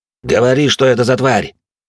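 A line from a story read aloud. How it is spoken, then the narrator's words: Harsh bark. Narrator (Russian): рявкнул на младшую Сервантес де Арсия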